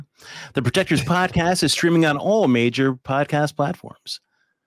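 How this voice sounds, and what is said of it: Put-on podcast announcer voice. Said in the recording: “podcast voice”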